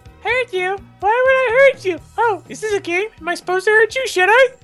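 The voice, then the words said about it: Shockingly fast, overly excited voice. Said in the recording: “The horse said in a shockingly fast voice.”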